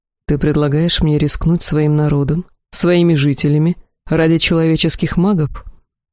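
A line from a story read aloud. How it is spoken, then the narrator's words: Calm reply. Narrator (Russian): Элохар спокойно ответил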